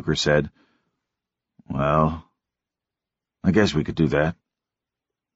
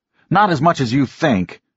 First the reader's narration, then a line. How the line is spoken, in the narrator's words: Norm said hotly